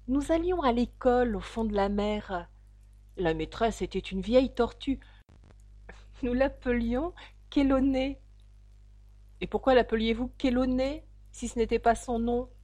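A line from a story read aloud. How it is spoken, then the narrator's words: Calmer, occasional sobs. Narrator (French): continua la fausse tortue d'un ton plus calme, quoiqu'elle laissant encore de temps à autre échapper un sanglot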